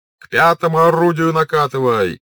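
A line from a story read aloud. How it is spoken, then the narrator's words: Distant shout. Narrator (Russian): кричали с одной стороны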